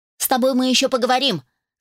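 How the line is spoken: Angry. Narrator (Russian): сверкнула глазками

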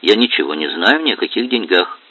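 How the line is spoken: Plain. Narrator (Russian): сказала она

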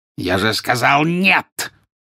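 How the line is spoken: Harsh bark. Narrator (Russian): рявкнул жестоколицый

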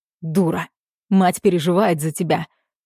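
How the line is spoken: Rough bark. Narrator (Russian): рявкает грубо

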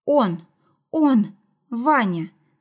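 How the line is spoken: Stammering, then firm. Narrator (Russian): начала она, запинаясь, а потом твердо и четко закончила

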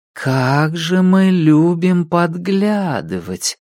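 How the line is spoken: Drawled. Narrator (Russian): протянула Кларк

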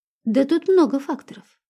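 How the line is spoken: Calm reply. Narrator (Russian): спокойно ответил Андрею милиционер, представившийся капитаном Трофимовым

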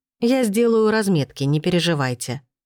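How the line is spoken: Calm. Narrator (Russian): спокойно ответила я

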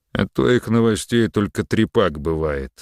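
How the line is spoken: Knowing grumble. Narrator (Russian): сознанием дела пробурчал Мерин

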